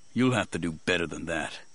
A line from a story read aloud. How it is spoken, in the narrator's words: Mace muttered